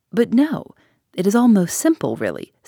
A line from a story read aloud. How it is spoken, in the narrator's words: said Poirot kindly